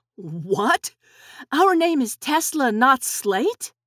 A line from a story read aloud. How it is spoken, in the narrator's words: Nick and Tess exclaimed